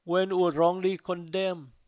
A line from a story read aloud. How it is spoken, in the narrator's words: Susanna cried out to God